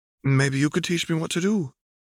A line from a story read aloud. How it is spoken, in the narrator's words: Broken Daisy asked timidly